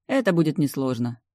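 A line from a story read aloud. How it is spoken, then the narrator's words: Grumbled. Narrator (Russian): буркнула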